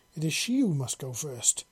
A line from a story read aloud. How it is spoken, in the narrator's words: she exclaimed